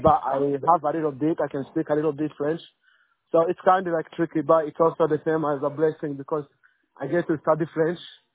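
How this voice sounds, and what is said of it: Creole-sounding accent. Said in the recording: “You sound, from your accent, you sound like you're Creole.”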